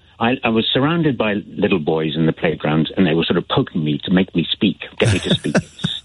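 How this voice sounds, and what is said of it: Slight Belfast accent. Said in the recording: “I had the thickest Belfast accent. I can feel myself doing a wee bit of a Belfast accent now”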